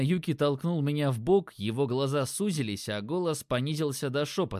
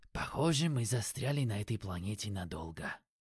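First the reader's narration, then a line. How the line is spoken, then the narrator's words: Mumbled. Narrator (Russian): пробормотал Юки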